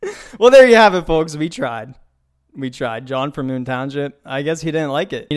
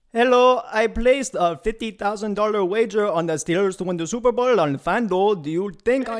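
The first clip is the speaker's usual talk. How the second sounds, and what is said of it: Terrible put-on accent. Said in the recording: “That is a terrible accent ... You didn't like the accent.”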